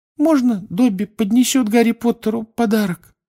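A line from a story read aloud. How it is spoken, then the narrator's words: Timid question. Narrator (Russian): робко спросил он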